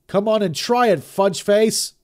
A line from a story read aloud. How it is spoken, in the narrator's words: he yelled, his face flushed and his large body quivering with rage and fear